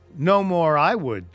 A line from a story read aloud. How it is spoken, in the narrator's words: cried the squire